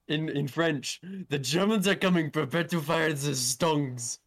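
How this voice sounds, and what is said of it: Put-on German accent. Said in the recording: “Why did you say that in a German accent?”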